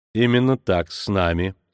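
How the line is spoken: Dry reply. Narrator (Russian): сухо ответил Диего Марс

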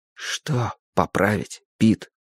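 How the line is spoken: Whispered question. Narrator (Russian): шепотом спросил Юджин

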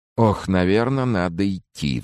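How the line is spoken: Sighing. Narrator (Russian): вздохнул я

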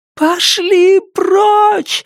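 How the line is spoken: Screaming. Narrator (Russian): завопила она

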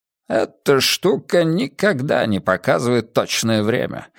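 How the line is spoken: Irritated sigh. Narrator (Russian): раздраженно вздохнул Пекка

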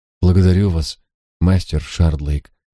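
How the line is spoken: Sighing. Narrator (Russian): вздохнула мисс Кертис

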